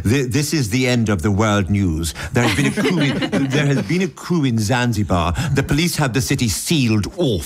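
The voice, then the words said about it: Put-on English newsreader accent. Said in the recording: “I want to do this in an English accent, because it seems to attempt to establish an authority over the material, which I associate with a certain sort of Englishness, reading the news”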